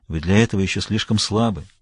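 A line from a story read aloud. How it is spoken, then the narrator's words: Soft, gentle. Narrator (Russian): мягко произнес Кем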